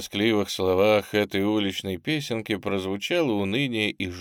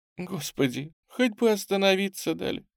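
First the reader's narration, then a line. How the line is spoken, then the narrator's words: Sobbing. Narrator (Russian): всхлипывая, говорила она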